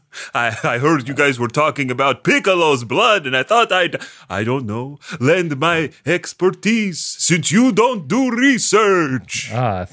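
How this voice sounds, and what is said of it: Dracula-style vaguely European vampire accent. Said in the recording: “are you French or... Italian? ... Vaguely or? European. ... this is just a Dracula. ... I was trying to hide my vampiric accent”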